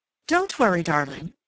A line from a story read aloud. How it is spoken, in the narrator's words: begged the dark, neurotic-looking woman who was Flora Miles, his wife